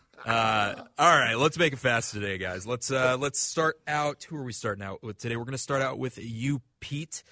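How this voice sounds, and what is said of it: Congested, stuffy-nosed voice. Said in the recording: “Just a little congested. ... Allergies, a cold, who's to say?”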